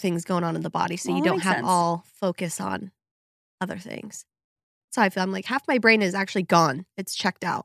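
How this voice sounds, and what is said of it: Rough, husky voice from a cold. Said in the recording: “sorry about my voice. I know it's extra sexy today, but I caught a cold”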